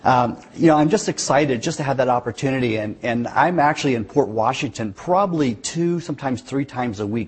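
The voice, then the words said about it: West Virginia accent. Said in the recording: “I grew up in West Virginia ... sometimes my accent will get in the way ... You put a Sheboygan accent with a West Virginia accent”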